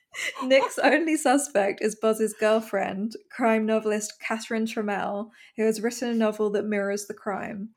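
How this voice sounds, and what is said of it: English accent. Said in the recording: “That doesn't sound as cool in English, in an English accent.”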